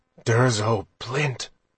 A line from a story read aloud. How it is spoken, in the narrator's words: Roth murmured